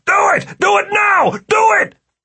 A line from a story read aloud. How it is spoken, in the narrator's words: started screaming